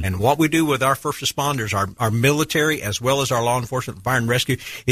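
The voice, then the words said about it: Rich, polished radio voice. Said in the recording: “you got a great radio voice.”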